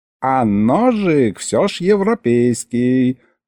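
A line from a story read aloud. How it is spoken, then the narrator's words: Drawled. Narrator (Russian): протянул ему вслед Михалыч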